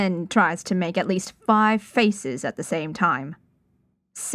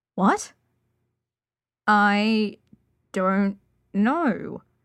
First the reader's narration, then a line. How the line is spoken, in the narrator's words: Flower says slowly